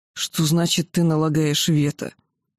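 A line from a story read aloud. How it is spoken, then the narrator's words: Growled reply. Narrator (Russian): Асурат стал олицетворением могущества и властности и прорычал в ответ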